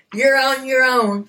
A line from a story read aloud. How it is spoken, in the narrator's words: Mary Magdalene yelled after him